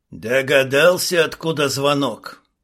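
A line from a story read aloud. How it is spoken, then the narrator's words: Loud exhaling voice. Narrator (Russian): Ночной голос шумно выдохнул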